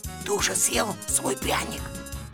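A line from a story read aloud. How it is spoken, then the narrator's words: Whisper. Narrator (Russian): послышался шепот Шурика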